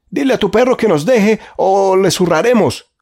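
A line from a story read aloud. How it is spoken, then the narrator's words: Man shouting. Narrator (Spanish): gritó el segundo hombre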